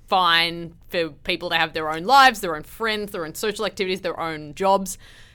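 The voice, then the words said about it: Australian or South African accent. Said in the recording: “Australia or South Africa or wherever your accent tells us you're from”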